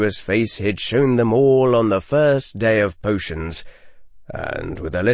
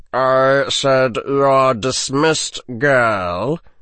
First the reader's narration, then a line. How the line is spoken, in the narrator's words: said the sneering voice